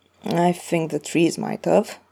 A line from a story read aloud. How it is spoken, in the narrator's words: Carlos mutters